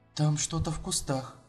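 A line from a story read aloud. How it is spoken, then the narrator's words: Quiet. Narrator (Russian): тихо сказала она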